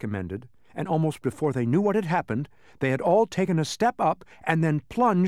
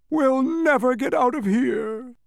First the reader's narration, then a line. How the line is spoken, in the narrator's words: the humbug moaned